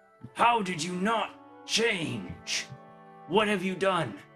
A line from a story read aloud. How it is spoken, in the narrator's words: the man shouting out